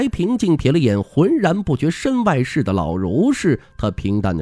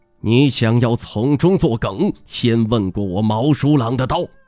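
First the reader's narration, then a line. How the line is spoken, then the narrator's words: Furious, harsh. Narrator (Chinese): 须发怒张如剑戟的毛叔朗向那名白衣仙师厉声道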